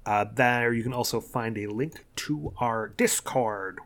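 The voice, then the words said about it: Put-on accent. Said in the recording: “which I'm doing an accent for some reason”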